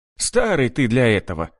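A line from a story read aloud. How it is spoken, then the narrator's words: Chuckling. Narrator (Russian): хохотнул Рудый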